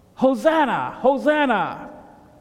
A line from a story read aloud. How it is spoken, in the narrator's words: people shouted